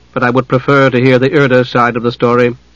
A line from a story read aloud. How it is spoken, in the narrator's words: said Delamar coldly